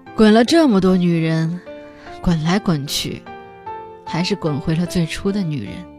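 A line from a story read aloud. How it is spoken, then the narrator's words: Slow. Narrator (Chinese): 酒瓶慢慢的说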